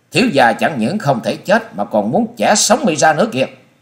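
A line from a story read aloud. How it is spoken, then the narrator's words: Hissing scream. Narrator (Vietnamese): Chàng rít giọng thét lên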